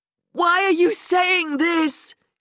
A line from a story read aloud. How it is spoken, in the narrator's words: she said, her voice cracking with pain